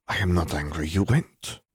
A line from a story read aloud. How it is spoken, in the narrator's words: she murmured